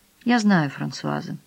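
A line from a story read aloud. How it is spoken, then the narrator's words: Quiet telling. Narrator (Russian): тихонько сообщила она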